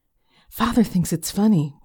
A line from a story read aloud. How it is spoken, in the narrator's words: whispered Hermione